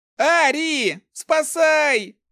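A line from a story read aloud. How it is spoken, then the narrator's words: Yell at top of lungs. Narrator (Russian): заорал во все горло воришка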